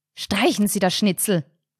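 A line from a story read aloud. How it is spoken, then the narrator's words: Sharp. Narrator (German): sagte Carinas Mutter scharf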